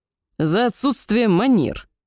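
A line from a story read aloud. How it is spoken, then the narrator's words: Barking elf. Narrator (Russian): рявкнул эльф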